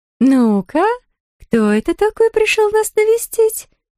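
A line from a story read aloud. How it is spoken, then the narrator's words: Thin doll-like singsong. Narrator (Russian): пропела Марни тоненьким, каким-то кукольным голоском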